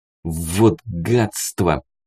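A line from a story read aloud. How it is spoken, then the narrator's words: Hiss through teeth. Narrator (Russian): прошипел сквозь зубы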